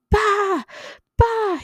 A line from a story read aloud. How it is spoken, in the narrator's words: he shouted over and over again